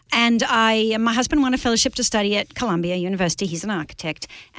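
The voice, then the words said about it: Australian accent. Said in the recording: “I'm from the great city of Sydney, Australia. So that's an Australian accent you're hearing, not a New Zealand accent, not a South African accent... Not a Scottish accent”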